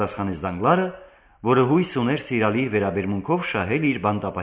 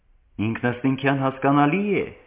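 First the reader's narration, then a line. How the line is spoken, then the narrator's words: Exclaimed. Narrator (Armenian): բացականչեց Դանգլարը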